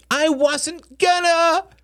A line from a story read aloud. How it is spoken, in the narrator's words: cried, tears streaming